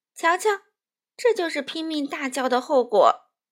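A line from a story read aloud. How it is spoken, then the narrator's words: Laughing mother. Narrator (Chinese): 兔妈妈笑着回答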